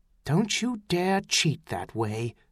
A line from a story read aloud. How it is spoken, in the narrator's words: she said softly